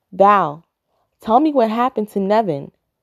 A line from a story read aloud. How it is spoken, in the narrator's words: Christopher exclaims